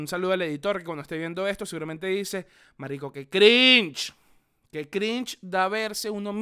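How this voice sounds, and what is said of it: Usual voice. Nothing is said of it.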